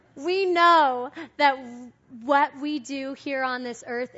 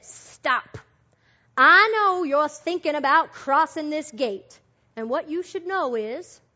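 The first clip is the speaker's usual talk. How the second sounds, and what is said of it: Put-on Texas accent. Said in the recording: “that's my Texas accent”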